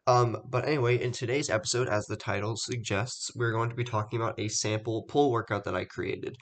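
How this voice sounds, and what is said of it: Congested, stuffed-up voice. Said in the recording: “I'm a little bit stuffed up today, so if my voice sounds weird”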